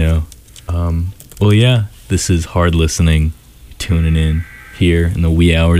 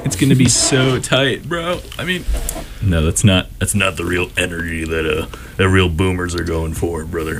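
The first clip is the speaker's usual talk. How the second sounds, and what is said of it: Imitates another person's voice. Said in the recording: “doing the Hulk Hogan voice. It just absolutely fries my throat.”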